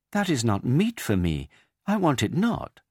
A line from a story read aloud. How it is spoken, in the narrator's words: she exclaimed, thinking that he meant a calf